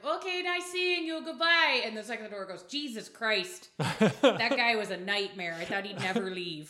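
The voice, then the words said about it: Put-on Midwestern American accent. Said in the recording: “Midwest polite ... I hate that I'm good at that accent.”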